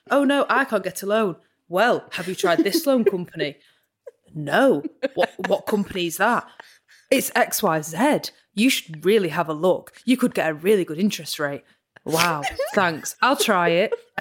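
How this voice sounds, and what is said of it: Impression of loan advert voices. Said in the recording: “You do such a good impression.”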